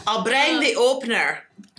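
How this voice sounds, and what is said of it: Put-on Scottish accent. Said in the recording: “Fun word to say in a Scottish accent.”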